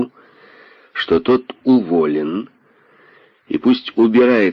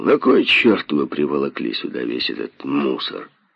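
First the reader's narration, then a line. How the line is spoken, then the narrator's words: Hoarse laughing question. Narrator (Russian): с хриплым смешком спросил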